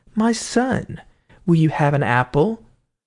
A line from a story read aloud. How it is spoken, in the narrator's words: the evil spirit in the wife made her say kindly to him